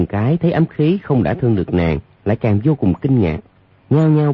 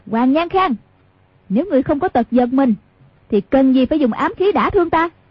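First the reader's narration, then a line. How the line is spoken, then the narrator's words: Shouted. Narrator (Vietnamese): Hoàng Dung quát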